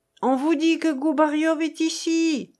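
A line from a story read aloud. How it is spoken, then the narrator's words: Woman exclaiming. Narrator (French): s'écria Madame Soutkantchikov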